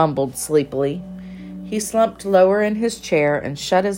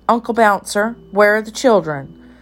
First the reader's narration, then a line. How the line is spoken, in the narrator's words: said Flopsy anxiously